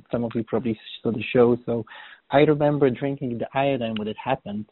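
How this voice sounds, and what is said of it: Slight Polish accent. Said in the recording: “as you maybe can hear, I have a little bit of accent. I'm Polish”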